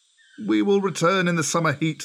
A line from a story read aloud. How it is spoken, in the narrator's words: they called out to Grey Brother